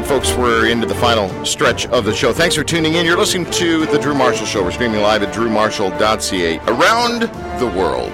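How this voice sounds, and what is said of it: Radio announcer voice. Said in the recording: “Is that your superhero voice? No, it was my radio announcer voice.”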